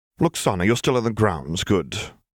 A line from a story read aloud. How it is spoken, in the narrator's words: Tiana said curtly